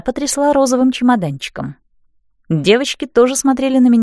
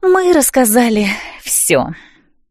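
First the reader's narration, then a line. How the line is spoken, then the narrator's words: Sighing. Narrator (Russian): вздохнула Лиала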